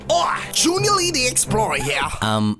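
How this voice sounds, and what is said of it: Poorly done put-on accent. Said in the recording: “That accent is not good at all.”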